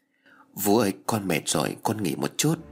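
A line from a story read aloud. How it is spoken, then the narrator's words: Soft tired girl. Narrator (Vietnamese): sau khi dọn dẹp cô bé trở về phòng với những mệt mỏi, con bé khẽ nói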